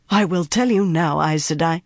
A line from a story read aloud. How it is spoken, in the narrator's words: she said in a cold voice